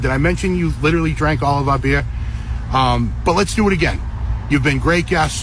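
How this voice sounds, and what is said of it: Strong American accent. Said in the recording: “That's the most American man I've ever heard in my whole life... Isn't his accent?”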